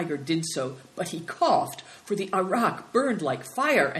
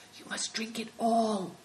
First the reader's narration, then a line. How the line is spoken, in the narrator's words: whispered Good Fortune